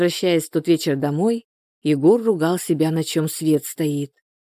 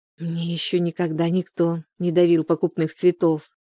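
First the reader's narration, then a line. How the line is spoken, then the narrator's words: Soft, smiling. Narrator (Russian): мягко улыбнулась ему девушка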